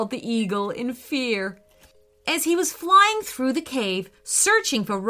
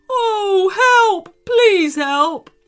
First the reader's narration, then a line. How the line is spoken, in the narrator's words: cried the eagle in pain